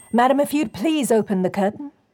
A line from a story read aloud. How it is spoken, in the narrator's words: Walker called out